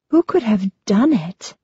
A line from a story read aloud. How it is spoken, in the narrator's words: Marina asks, her voice filled with awe